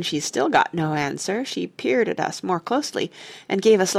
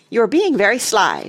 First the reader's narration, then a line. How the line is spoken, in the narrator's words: she snapped